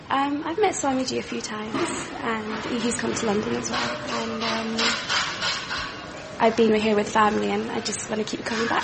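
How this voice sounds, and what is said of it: Clear London English accent. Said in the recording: “that sounded a remarkably clear accent”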